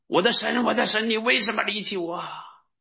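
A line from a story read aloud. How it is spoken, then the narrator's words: Loud cry. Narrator (Chinese): 耶稣大喊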